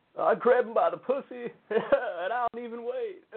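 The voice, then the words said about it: Imitates another person's voice. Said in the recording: “Is that a good Clinton impression?”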